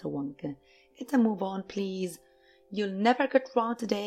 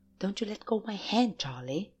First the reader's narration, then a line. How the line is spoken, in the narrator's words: whispered Grandpa Joe